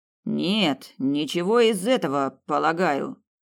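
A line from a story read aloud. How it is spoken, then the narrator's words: Dull muffled voice. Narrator (Russian): глухо произнес Хирш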